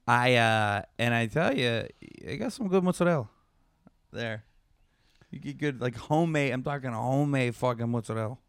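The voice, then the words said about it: Put-on accent. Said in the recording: “you're just doing a, like, an accent ... Stop doing that.”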